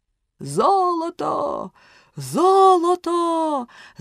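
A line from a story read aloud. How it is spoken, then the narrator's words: Excited group shout. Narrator (Ukrainian): закричали вони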